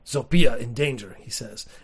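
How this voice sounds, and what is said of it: Deep caveman character voice. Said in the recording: “an accent for him. He's a caveman, so I should just do a caveman voice ... when I hear that deep bassy. I can't get that deep.”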